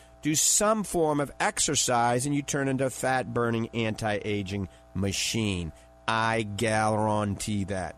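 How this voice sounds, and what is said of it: New Orleans accent. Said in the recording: “That's my New Orleans accent.”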